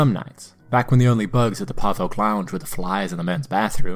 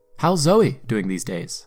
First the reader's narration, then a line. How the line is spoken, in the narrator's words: I asked